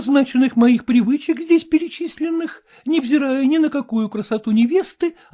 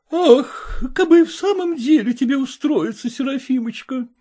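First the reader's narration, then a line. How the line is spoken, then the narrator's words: Sighing mother. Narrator (Russian): вздохнула мать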